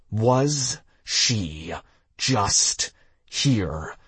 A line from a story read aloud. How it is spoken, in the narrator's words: I asked slowly